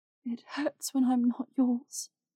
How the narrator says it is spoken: she whispered

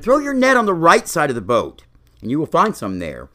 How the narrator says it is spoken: Jesus yelled out to them

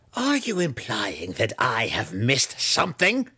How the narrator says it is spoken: Malice growled

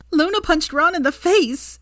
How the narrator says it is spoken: she squealed

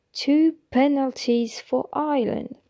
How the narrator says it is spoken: shouted Bagman

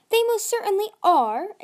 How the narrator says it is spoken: Exquisite snapped

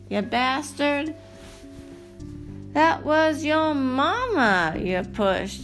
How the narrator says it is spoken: he yelled

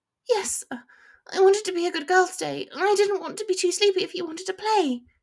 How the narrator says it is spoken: she whines

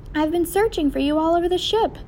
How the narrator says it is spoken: King Leon squeaked

